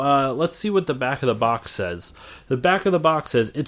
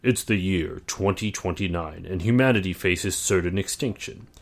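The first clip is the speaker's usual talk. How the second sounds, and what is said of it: Dramatic announcer voice. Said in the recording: “I have to get into my announcer voice.”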